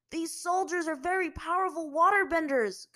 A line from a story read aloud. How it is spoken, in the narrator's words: Kuzan shouted to her